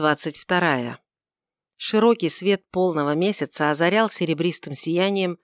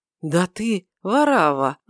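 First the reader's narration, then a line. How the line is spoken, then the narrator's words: Exclaimed. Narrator (Russian): воскликнул он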